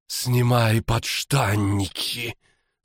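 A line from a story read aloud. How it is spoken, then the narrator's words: Husky seductive rasp. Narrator (Russian): сексуально прохрипела маркиза Денеменс Уйвар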